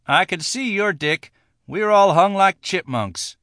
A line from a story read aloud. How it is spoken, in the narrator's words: T said, sadly